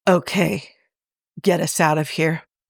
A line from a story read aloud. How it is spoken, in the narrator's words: murmurs hoarsely